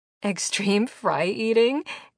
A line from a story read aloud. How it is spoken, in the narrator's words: Carney giggled